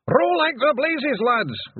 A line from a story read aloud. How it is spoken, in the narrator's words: Rob Anybody yelled